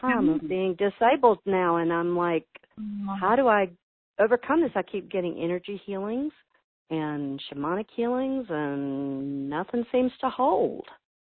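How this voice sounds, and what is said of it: Southern US drawl. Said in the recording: “I could tell by your accent, really. You still have it. ... I love a southern drawl.”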